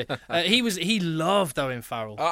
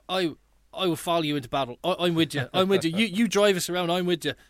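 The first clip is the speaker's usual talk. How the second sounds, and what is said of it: Imitates another person's voice. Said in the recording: “Sorry about the accent.”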